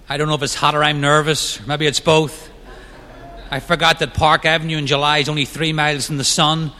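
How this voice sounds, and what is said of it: Northern Irish accent. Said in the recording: “I'm hoping my accent doesn't throw you off... I'm not originally from this country... I grew up in Ireland, the north of Ireland, near Belfast”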